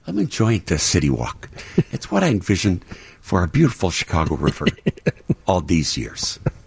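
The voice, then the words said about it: Imitates another person's voice. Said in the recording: “Come on out, Mayor Daley ... my bad impersonations”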